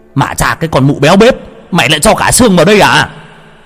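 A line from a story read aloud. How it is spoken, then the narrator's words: Sudden pained yell. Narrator (Vietnamese): bỗng ông ôm lấy răng mà la lên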